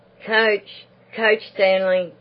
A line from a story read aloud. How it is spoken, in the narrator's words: Beryl's voice cried from the gate